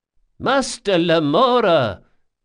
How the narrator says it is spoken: cried Ibelius

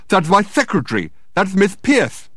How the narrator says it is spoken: exclaimed Dirk in astonishment

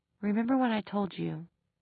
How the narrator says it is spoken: said, his voice as soft as she had ever heard it

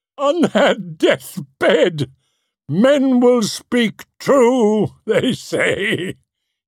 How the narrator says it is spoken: cackled

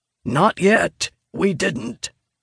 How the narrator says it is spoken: Vargas says through gritted teeth

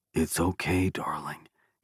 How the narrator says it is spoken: he whispered

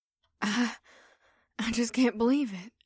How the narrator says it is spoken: Batari muttered as she continued to stare up in awe

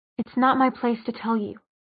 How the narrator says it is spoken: Jocelyn said flatly

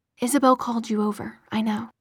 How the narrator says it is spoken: he said, speaking in a low voice so as not to wake Alec

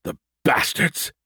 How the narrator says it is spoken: he spat angrily

